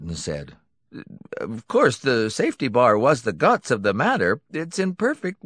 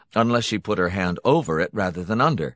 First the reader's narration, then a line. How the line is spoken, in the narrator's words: Hunton said flatly